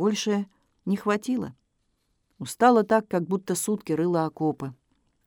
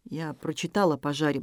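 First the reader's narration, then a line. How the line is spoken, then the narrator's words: Muttering. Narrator (Russian): бормотал Игорь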